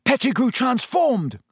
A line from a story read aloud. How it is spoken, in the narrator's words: Harry yelled